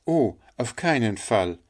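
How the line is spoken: Child calling out. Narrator (German): rief der kleine Hans

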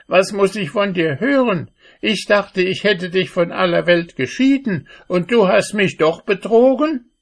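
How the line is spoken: Sorceress calling out. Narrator (German): rief die Zauberin

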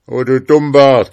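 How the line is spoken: Father calling out. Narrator (German): rief der Vater

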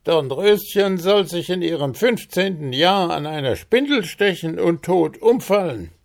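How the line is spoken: Fairy calling out. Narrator (German): Paul Kautz, die Fee, rief

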